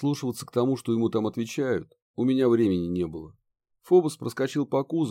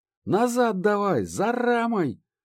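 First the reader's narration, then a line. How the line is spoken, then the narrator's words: Shouted. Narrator (Russian): крикнул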